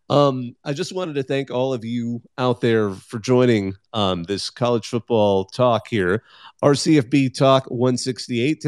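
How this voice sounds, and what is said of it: Tired, strained voice giving out. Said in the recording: “my voice is actually starting to give out. We've been doing this for about 2 hours.”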